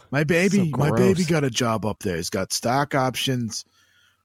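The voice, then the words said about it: Put-on Bronx or Queens accent. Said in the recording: “somebody from like the Bronx or Queens ... It's just a good accent. It's really satisfying to do. Like when you want to feel like mentally dumb, you just put on that accent”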